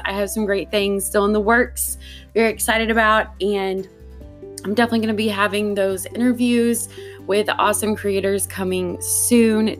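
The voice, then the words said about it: Sore, slightly off voice. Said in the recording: “my throat has been killing me ... Definitely didn't have a podcast voice. Still is coming back very slowly, so bear with me if I sound a little bit off”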